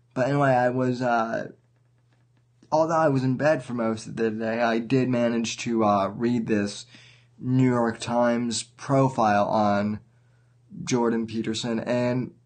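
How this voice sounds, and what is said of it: Sick-sounding, under-the-weather voice. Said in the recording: “I was actually uh, under the weather. I still kind of am, uh, as some of you might hear in my voice ... just uh, allergies”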